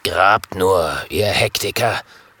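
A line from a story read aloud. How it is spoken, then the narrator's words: Murmuring. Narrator (German): murmelt Jim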